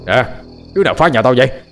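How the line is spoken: Annoyed man shouting loudly. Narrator (Vietnamese): Ông bực dọc quát lớn

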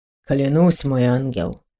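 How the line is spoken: Soft smiling, very serious. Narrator (Russian): Мягко улыбнулся он, но был серьезен, как никогда

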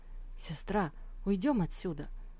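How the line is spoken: Frightened exclamation. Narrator (Russian): воскликнул испуганно Фуя

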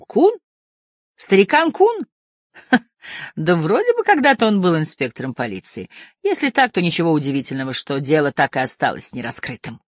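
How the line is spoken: Laughter, then question. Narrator (Russian): Морган расхохотался, потом спросил

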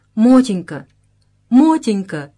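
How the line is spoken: Pleading, drunk voice. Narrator (Russian): молящим голосом обратился к жене, уже изрядно выпивший Тряскин

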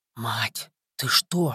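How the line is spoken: Astonished whisper. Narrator (Russian): шепотом изумился Колька

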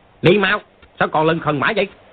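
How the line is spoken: Warrior's shout. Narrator (Vietnamese): một tên võ sĩ Mông Cổ quát

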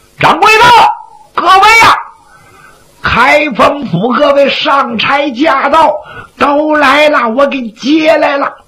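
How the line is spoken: Shouting. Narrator (Chinese): 葛三就喊

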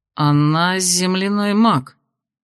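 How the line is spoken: Uncertain guess. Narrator (Russian): неуверенно предположил Кирсан

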